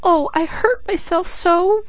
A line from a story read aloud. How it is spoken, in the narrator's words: Peaches wailed